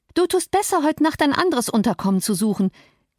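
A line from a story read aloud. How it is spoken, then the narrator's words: Almost triumphant call. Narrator (German): rief in fast triumphierendem Ton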